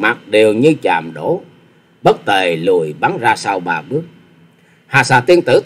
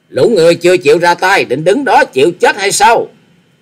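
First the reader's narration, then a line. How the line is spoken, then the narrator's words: Leader's shout. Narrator (Vietnamese): Tiếng quát của giáo chủ của chúng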